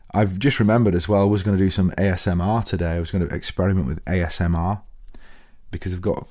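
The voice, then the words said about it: Unusually low, worn-down voice. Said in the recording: “that's why my voice is right down here ... it got relatively messy”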